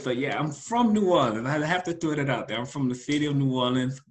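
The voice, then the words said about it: New Orleans accent. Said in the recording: “Now we can hear the accent. ... I try to disguise it sometimes, but, you know, it just comes out.”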